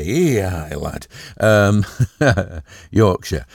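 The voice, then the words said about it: Attempted Yorkshire accent. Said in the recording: “doing a Yorkshire accent is a bit of a challenge”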